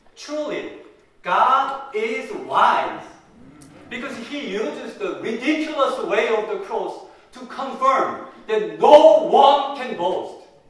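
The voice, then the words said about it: Heavy non-native English accent. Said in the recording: “my poor English ... my bad accent”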